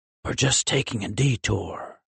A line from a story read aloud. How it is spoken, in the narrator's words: he whispered in return